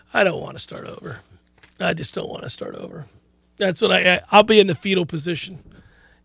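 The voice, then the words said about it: Strained, fading voice. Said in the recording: “I'm just losing my voice every second we're on the air.”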